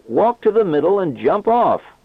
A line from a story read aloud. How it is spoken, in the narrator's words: He shouted back